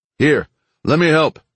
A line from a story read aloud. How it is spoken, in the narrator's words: Kiesel called out